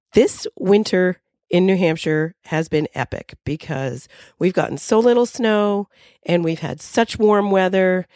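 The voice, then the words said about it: Sick, flu-affected voice. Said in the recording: “I'm coming to you from the land of the flu ... you can hear it in my voice ... I have the flu”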